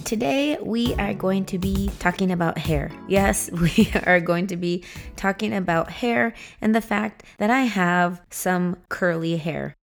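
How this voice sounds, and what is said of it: Slightly hoarse voice. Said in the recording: “I'm actually getting over a cold... I have just been hoarse for the last few days... I sound a little bit different”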